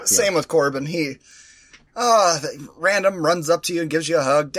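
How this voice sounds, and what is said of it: Hoarse, rough throat voice. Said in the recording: “you can tell by my voice, my throat is fucked”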